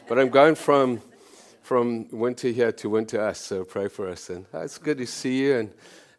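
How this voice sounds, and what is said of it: Gruff, hoarse voice. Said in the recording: “My voice is a bit grumpy or gruffy. I come out of summer into freezing cold.”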